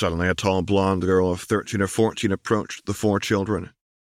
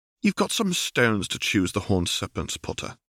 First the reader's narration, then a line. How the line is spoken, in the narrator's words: she said in a posh, received pronunciation accent